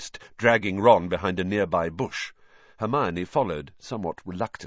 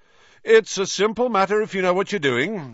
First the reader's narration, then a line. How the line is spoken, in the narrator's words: was saying loudly